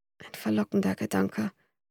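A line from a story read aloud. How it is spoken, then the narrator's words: Murmur. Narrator (German): murmelte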